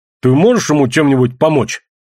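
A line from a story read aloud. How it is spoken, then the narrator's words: Sharp question. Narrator (Russian): резко спросил Смец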